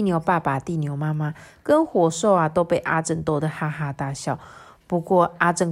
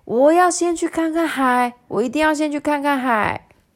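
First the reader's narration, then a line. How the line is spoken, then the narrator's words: Happy loud shouting. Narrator (Chinese): 阿正高兴的……大声叫嚷说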